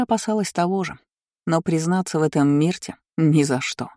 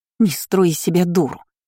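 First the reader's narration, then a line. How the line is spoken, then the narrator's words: Hissed. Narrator (Russian): прошипела она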